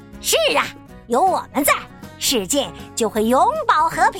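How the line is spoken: Loud booming declaration. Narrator (Chinese): 大嗓门大声宣告

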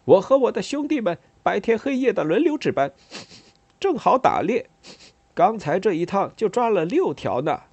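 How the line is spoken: Smiling. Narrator (Chinese): 他笑着说

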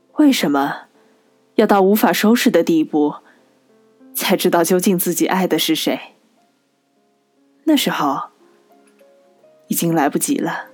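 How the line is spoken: Heavy sigh. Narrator (Chinese): 他重重叹口气说

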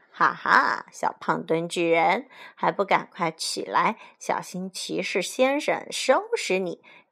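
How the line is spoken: Laughing loudly. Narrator (Chinese): 卡梅利多大笑

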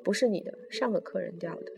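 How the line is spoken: Cold. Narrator (Chinese): 司机冷冷地说

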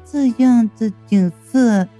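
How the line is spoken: Sighing, slow and wistful. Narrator (Chinese): 吊死鬼叹了口气，悠悠的道

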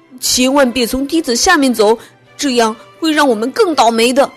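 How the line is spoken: Loud child's shout. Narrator (Chinese): 小胖墩高声喊道

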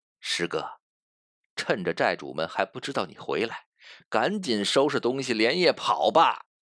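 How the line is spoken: Smiling whisper. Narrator (Chinese): 霍三皎洁一笑，悄声对他说

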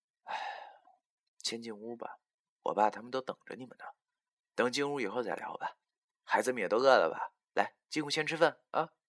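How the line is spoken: Sighing. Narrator (Chinese): 她叹了口气说

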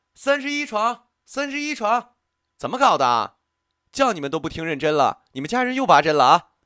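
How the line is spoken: Loud awkward shout. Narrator (Chinese): 护士有些尴尬 直接扯开嗓子又喊起来

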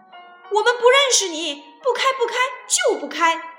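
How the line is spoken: Shouting. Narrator (Chinese): 他们就喊

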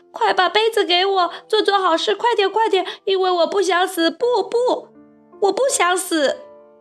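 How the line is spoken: Puppet screaming in panic. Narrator (Chinese): 木偶于是大叫起来

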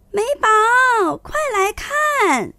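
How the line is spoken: Loud shout. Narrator (Chinese): 大声喊

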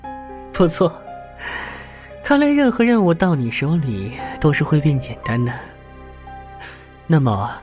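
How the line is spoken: Smiling. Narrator (Chinese): 邓肯脸上露出笑容，说道

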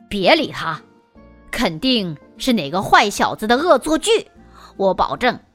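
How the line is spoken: Muttering. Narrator (Chinese): 学生们忍不住嘀咕起来

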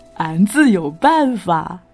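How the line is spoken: Proud laugh. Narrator (Chinese): 壮士高傲的笑笑

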